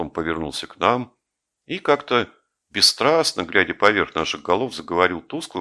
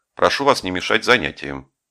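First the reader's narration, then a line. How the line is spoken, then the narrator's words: Dry, curt. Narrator (Russian): Сказал сухо Грише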